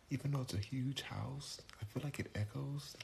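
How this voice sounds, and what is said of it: Whispering. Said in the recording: “I'm whispering because it's nighttime right now ... My family's sleeping, and so I'm whispering.”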